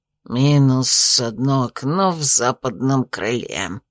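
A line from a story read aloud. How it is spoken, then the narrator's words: Grumbling mutter. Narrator (Russian): пробурчал он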